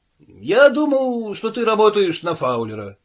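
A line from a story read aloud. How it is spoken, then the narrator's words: Plain. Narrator (Russian): сказал Том Брэд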